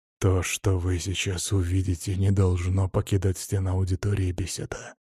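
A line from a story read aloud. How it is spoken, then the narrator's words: Conspiratorial voice. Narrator (Russian): заговорщическим голосом произнес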